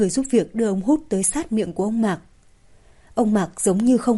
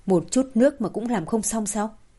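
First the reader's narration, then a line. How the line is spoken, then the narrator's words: Scolding. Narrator (Vietnamese): Mạc Đình Kiên mắng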